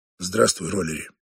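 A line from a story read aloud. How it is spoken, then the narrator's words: Gruff grunt. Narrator (Russian): буркнул он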